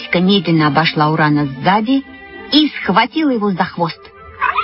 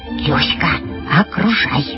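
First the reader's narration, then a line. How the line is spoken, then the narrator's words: Whisper. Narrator (Russian): я зашептала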